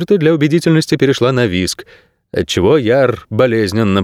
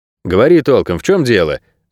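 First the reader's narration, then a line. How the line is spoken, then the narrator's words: Barked. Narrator (Russian): рявкнул куратор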